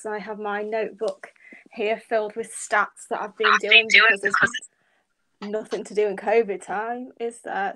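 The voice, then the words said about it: British accent. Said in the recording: “I'm from the UK. ... you can obviously tell by my accent, I'm not a Yank”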